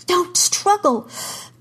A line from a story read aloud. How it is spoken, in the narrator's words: Kara gasped